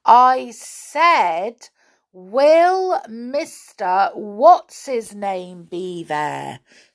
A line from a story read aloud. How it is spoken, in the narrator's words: said Joe loudly